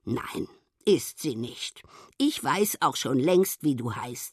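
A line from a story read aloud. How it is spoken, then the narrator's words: Very calm. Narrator (German): sagt ganz ruhig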